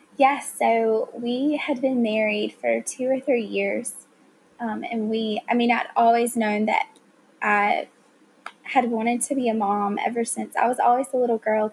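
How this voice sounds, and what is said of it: Southern American accent. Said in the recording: “you really talk Southern ... I definitely have a Southern accent”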